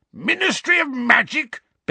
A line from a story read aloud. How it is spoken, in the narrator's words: bellowed Uncle Vernon